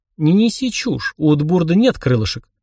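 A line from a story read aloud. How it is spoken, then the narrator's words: Irritated, curt. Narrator (Russian): раздраженно бросил я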